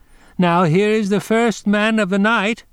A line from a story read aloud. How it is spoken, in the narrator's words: she cried as she went